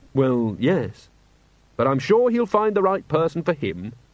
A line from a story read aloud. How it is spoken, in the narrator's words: Carrot added cheerfully